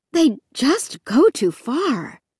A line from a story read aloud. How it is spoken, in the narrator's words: Mom said breathlessly, jogging to keep up with us